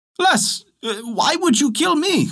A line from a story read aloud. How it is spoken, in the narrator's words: cried the fisherman